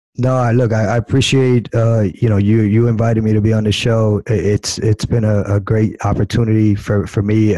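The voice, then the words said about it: Hoarse voice. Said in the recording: “trying to get over this cold. So I'm sound a little hoarse.”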